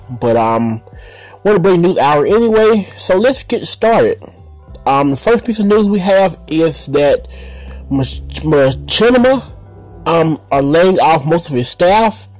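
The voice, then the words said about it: Slightly off, congested-sounding voice. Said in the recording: “I sound a little weird. My allergies are acting crazy today.”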